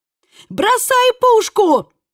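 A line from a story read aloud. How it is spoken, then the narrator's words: Screamed. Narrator (Russian): завопила Элли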